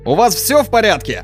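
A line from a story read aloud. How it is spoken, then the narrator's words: Shouting through cupped hands. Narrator (Russian): Петр Андреевич сложил руки рупором и прокричал в ответ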